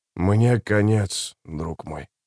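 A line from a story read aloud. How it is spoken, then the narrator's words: Whispered. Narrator (Russian): прошептал он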